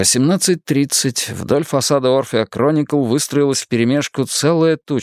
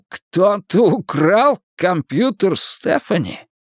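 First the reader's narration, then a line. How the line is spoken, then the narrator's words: Shocked exclamation. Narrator (Russian): Потрясенный Майкл воскликнул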